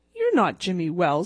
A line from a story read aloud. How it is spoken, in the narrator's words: he snapped